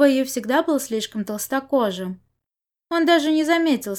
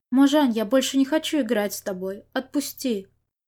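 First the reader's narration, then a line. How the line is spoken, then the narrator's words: Quiet. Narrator (Russian): тихо сказал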